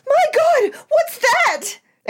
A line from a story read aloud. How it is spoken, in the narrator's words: Ria suddenly screamed out